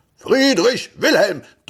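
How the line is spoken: Thundering male voice. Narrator (German): donnerte eine Männerstimme

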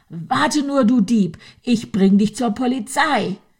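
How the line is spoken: Angry shouting, female. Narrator (German): schrie sie wütend

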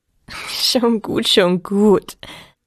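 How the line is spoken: Laughing. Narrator (German): lachte Alpina

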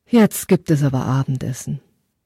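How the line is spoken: Deep sigh, mother. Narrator (German): Seine Mutter seufzte tief und sagte

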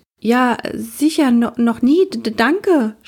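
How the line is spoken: Stammering. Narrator (German): stotterte sie

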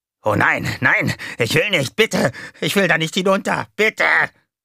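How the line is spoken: Shrieking. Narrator (German): JJ kreischte

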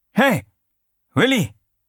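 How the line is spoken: Called out. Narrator (German): rief er

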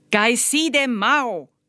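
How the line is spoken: Shouted. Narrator (German): schrie Lai

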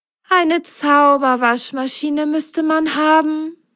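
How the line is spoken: Sighing. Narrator (German): seufzte Merle

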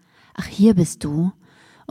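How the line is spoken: Quiet. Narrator (German): Dann sagte sie leise

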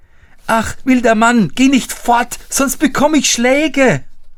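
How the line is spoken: Shouting after someone. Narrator (German): Er schrie und rief ihm nach

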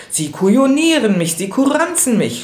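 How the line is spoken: Furious shout. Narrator (German): schrie er im Jähzorn

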